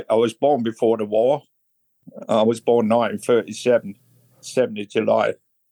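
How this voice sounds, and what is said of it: Northern English accent. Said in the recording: “I've got an accent, as you can tell. It's a northern accent.”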